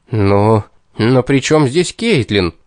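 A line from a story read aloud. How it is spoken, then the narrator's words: Indignant question. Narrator (Russian): возмущенно вопросил я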